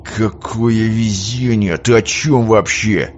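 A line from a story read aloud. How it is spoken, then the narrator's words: Through gritted teeth. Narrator (Russian): процедил сквозь зубы капитан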